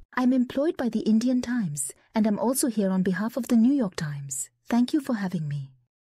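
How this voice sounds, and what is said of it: Indian accent. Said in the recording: “Her accent was decidedly Indian.”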